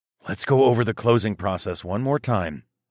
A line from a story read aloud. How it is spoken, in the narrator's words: I whispered to Naomi